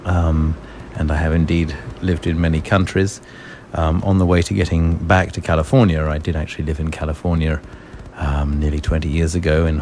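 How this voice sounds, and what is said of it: British English accent. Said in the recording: “you have a very similar accent to me, so you're not from around here... I'm British. I was born in London.”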